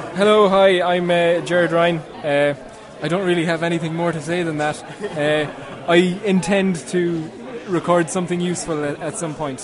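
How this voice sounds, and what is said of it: Irish accent. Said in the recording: “It sounds like maybe an Irish accent.”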